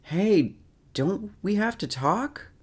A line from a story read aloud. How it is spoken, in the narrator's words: Charles yells out after him